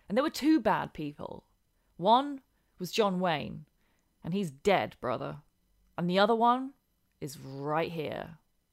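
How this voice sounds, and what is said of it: Less posh British accent. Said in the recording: “you went for your less posh British accent while doing that promo ... if I did it in my normal, very posh promo voice”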